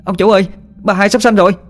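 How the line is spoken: Panicked servant's scream. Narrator (Vietnamese): tiếng con người hầu la lên thất thanh

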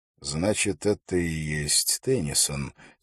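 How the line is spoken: Quiet. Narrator (Russian): тихо сказал Холт

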